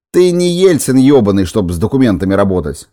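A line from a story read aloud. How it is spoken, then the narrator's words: Barked. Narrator (Russian): рявкнул босс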